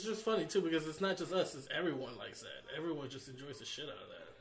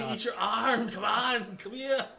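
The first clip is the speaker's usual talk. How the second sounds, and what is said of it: Imitates another person's voice. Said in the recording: “what if Arnold Schwarzenegger was it?”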